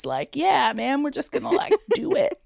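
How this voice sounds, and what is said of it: Laid-back cool professor impression. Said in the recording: “That's my cool impression of a cool professor.”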